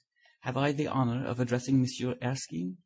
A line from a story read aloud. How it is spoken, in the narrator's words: An old gentleman said in a slight French accent